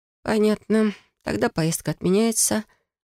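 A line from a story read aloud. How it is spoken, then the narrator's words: Grim. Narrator (Russian): говорю мрачно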